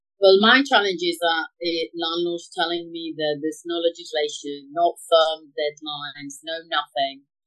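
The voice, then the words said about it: Spanish accent with London expressions. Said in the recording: “I love your accent, and you talk from your London. You got London terminology with your Spanish talk.”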